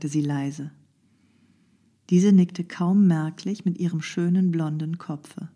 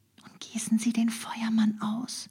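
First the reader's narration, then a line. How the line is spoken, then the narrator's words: Whisper. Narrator (German): flüsterte sie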